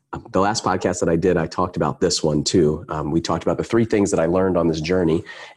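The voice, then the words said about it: Sick, under-the-weather voice. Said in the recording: “sorry about my voice. I'm a little bit under the weather.”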